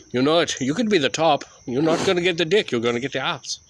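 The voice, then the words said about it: Poorly done put-on accent. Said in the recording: “I can't even do that accent properly.”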